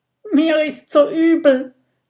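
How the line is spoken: Fat robber whining. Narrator (German): jammert der dicke Räuber

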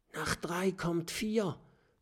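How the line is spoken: Whispering. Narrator (German): flüstert Knuppi Erik zu

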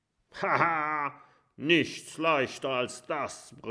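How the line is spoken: Roaring back. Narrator (German): brüllt Haifisch Erik zurück

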